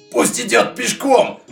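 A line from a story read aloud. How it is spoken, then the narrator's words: Shout. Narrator (Russian): крикнул кузнец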